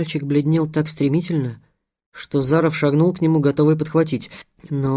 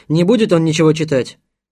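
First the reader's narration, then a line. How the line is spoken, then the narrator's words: Angry. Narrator (Russian): Визитер сердито сказал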